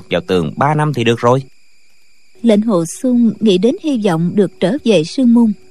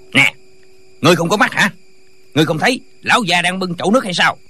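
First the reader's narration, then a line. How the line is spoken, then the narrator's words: Angry. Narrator (Vietnamese): Lệnh Hồ Xung rất tức giận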